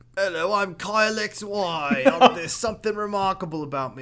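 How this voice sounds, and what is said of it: Put-on British accent. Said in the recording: “I've got to have a British accent”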